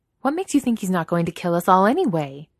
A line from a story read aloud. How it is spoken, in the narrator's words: She snaps back